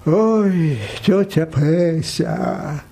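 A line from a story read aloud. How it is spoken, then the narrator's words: Sigh. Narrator (Russian): вздохнул парикмахер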